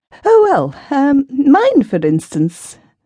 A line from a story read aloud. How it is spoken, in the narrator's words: said Mavis, with a feeble laugh